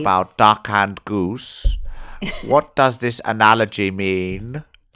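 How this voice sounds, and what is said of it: Hammy Hannibal Lecter impression. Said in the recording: “I've just put on a Hannibal Lecter accent... hammy... that was better than his voice”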